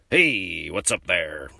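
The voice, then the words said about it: Put-on American accent. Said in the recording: “let me see if I can do my American accent ... Okay, so that's pretty good.”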